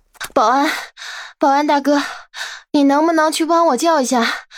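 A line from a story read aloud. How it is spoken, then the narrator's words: Feigned urgency, panting. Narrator (Chinese): 柠檬假装很急的 大喘着气 好像很累的样子，说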